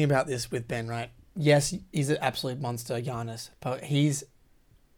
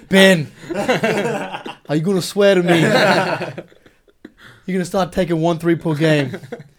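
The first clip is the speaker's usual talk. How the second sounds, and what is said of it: Imitates another person's voice. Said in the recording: “Do your Brett Brown accent.”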